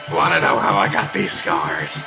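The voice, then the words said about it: Joker impression. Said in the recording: “that voice ... The Joker”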